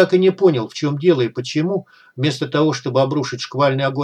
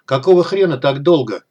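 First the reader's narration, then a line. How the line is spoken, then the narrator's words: Commander barking. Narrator (Russian): рявкнул командир нападающих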